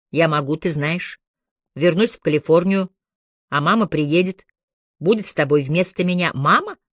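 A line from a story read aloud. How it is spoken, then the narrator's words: Muffled chuckle. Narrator (Russian): Чайна приглушенно хохотнула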